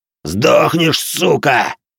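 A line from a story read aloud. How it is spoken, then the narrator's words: Barking man. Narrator (Russian): рявкнул мужик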